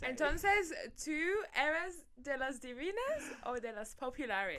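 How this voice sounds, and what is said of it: Spanish spoken with put-on English accent. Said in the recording (Spanish): “ahora lo vamos a hacer con un acento inglés”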